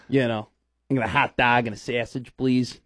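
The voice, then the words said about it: Exaggerated fake Chicago accent. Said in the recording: “my fake Chicago, you know, probably over-pronunciated Chicago accent”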